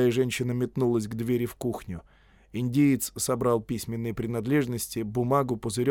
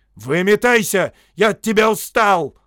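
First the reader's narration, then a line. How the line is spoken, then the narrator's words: Roared. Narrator (Russian): взревел Торренс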